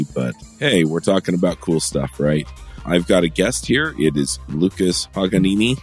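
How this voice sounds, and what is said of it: Scratchy voice from a cold. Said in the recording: “I've got a little bit of a cold. My voice is scratchy”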